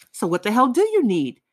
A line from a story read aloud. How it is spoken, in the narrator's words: Razumikin shouted from above